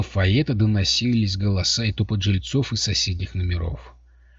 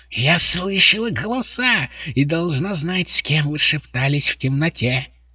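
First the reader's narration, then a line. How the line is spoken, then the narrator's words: Shrieking. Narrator (Russian): завизжала она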